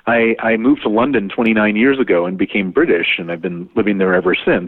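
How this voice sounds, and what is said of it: American accent. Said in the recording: “my accent is American”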